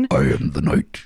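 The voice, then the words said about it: Batman voice impression. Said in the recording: “do a little Batman voice”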